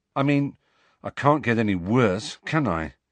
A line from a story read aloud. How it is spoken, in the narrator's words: he told Harry and Hermione grimly